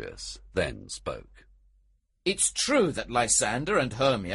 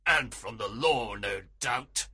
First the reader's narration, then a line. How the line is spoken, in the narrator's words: Aegeus interrupted angrily